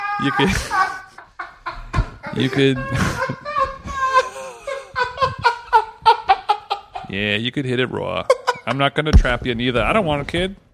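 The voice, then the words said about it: Put-on Boston accent. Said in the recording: “on the Boston accent”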